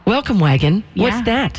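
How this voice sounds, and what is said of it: Sarcastic feigned ignorance. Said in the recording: “I'm being sarcastic.”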